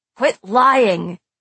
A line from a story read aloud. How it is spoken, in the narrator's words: he growled